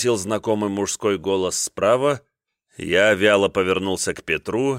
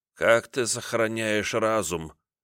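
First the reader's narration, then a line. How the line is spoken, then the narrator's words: Listless voice. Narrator (Russian): спросил я его вялым голосом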